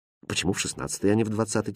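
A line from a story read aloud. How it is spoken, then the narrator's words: Princess, quiet question. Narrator (Russian): тихо спросила принцесса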